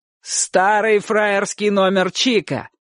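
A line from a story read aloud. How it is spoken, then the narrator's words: Shouted. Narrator (Russian): крикнул Гектор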